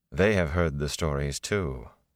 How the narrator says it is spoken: she added dryly

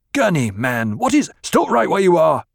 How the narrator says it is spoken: Gurney snapped

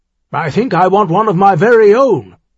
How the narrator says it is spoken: he half-shouted back

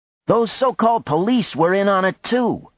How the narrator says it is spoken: said loudly

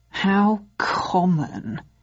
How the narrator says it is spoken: he sneered

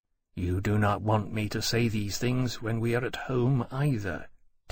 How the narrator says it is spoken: Temeraire said quietly

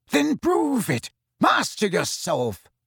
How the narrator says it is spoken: spat Snape

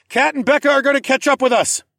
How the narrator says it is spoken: I shouted

